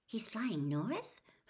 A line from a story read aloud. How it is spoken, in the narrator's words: Hermione whispered